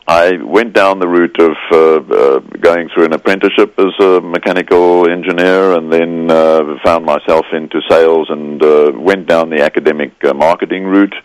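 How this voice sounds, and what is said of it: Mixed South African Scottish Australian accent. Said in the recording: “Born in South Africa to Scottish parents, but I'm now an Australian, so if my accent catches you, that's where I'm from.”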